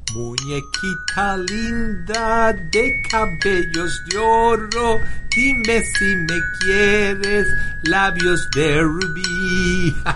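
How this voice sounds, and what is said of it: Singing Spanish with English accent. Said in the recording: “You singing that in Spanish with an English accent... He has a lot of recording in Spanish with his American accent”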